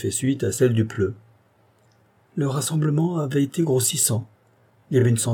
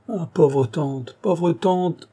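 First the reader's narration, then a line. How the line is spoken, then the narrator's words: Exclamation. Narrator (French): s'écria-t-il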